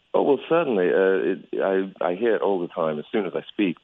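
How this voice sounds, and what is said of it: Foreign accent mistaken for Australian. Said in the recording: “that's an accent ... a lot of times people think that I'm Australian.”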